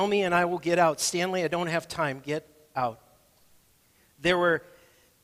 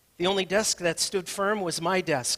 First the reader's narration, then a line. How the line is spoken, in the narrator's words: Stanley said